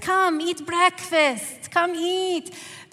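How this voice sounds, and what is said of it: Imitated Middle Eastern accent. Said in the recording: “my mom's Middle Eastern accent.”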